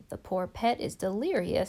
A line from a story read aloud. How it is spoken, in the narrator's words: said Susan